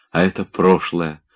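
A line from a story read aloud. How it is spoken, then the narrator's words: Whisper. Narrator (Russian): шептала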